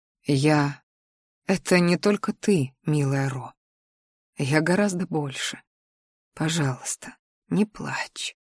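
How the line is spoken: Quiet, tender, smiling. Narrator (Russian): Дэйн, ласково улыбаясь, тихо сказал

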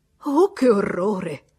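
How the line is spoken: Exclamation. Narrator (Italian): esclamò

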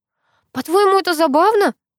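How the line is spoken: Indignant whisper. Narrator (Russian): снова возмущенно зашептала она

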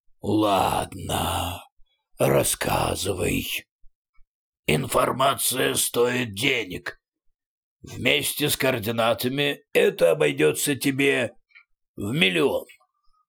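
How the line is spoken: Hoarse growl. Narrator (Russian): прорычал хрипло

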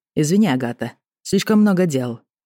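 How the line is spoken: Curt and dry. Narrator (Russian): Бросил сухо

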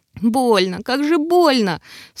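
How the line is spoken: Sobbing girl. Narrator (Russian): всхлипнула девчонка

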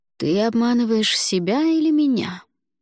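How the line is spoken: Soft question. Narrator (Russian): мягко спросил Альвар

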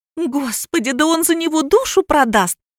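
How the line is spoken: Shriek. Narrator (Russian): взвизгнула Олеся

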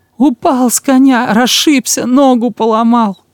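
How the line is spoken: Whimpering rehearsed line. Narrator (Russian): прохныкал Жуков приготовленное

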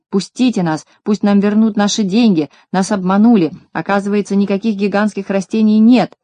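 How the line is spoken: Crowd shouting. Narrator (Russian): Коротышки кричали

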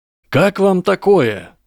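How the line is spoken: Loud. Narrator (Russian): громко начал Гарри

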